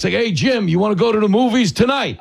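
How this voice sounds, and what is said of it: Thick regional accent, bookie-like. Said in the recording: “I actually grew up around a lot of women who have my accent ... it just sounds like it sounds like a bookie calling to collect”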